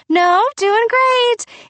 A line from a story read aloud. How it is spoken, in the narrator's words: in that shaky, high, fake voice